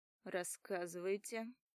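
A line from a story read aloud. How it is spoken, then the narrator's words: Calm boss. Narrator (Russian): Спокойно говорит босс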